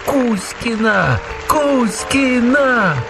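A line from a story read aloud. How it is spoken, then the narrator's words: Crowd shouting. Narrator (Russian): Поклонники кричали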